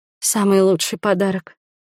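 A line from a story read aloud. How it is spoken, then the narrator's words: Breathless whisper. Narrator (Russian): шепнула, когда уже смогла дышать полной грудью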